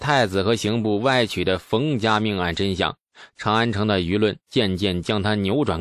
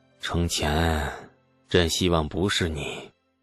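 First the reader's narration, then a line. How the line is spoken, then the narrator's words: Weary murmuring to himself. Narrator (Chinese): 李世民神情疲惫地喃喃自语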